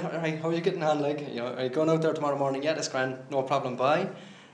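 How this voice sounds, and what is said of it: Flat, sing-song Cork accent. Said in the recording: “my accent goes flat and it goes real Cork-like ... you flatten it down and you go sing-song”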